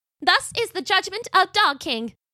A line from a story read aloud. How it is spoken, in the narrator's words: cried Pickles